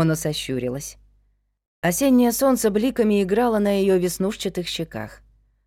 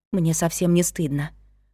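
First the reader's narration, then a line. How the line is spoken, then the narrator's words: Whisper. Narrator (Russian): шепнула она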